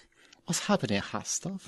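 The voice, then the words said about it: Put-on Chinese accent. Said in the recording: “with the proper accent... With an offensive accent... please do a Chinese accent”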